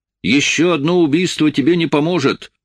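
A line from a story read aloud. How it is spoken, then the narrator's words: Loud. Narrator (Russian): громко сказал я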